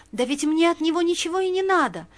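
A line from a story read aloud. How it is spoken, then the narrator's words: Timid babble. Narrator (Russian): пролепетала она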